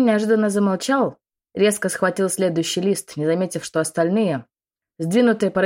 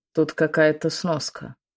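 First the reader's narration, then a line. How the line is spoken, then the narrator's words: Muffled. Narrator (Russian): глухо произнес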